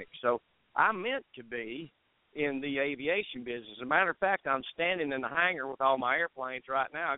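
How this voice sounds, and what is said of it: Noticeable accent. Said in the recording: “I just love that accent.”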